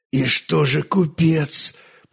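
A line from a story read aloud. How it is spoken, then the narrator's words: Hoarse, half-conscious wheeze. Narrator (Russian): прохрипел, находясь словно в полусознании гроза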